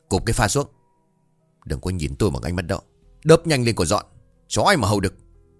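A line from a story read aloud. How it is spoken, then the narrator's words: Sharp shout. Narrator (Vietnamese): Hương lại quát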